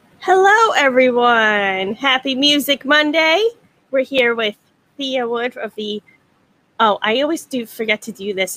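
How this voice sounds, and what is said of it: Staten Island accent. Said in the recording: “my bad Staten Island accent”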